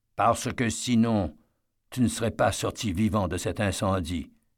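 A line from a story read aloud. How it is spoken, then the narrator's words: Calm explanation. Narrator (French): lui expliqua-t-il calmement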